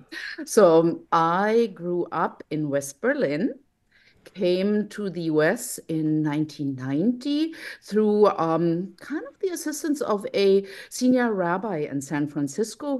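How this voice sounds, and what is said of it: German accent, sometimes mistaken for British. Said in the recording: “accent, I think, gives me away. Sometimes people think it's a British accent, ... it's 100% German”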